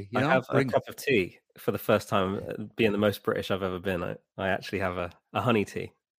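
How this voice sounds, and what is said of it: Raspy voice. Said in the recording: “raspy voice”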